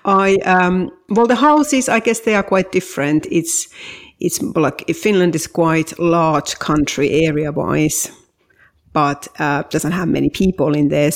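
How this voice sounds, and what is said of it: Thick Finnish accent. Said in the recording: “I'm originally from Finland ... my very thick accent”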